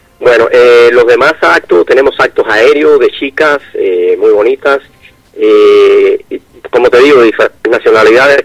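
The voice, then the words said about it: Cuban Spanish accent. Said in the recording (Spanish): “Yo soy cubano. ... Cubano, el acento, sí”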